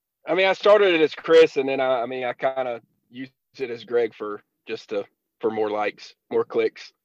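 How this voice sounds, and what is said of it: Southern twang accent. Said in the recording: “You have like a Southern twang going on there.”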